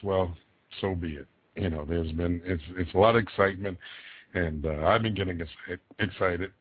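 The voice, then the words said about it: Slightly hoarse voice. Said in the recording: “I sound a little hoarse ... I've done shows hoarse before”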